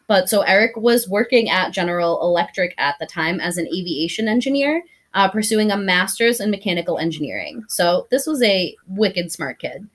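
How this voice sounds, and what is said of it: Regional accent coming through. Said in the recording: “Sorry, that's the accent's coming out.”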